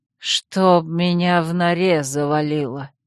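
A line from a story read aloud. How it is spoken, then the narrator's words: Bewildered, pale mutter. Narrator (Russian): растерянно пробормотал побелевший Душан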